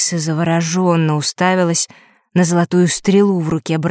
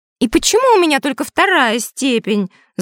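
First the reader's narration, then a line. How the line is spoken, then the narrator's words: Envious exclamation. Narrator (Russian): завистью воскликнула Дейла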